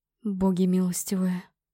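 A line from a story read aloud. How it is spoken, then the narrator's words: Frightened whisper. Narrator (Russian): прошептал Корвин, побледнев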